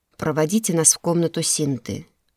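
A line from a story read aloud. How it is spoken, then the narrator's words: Calm suggestion. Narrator (Russian): спокойно предложил Рошер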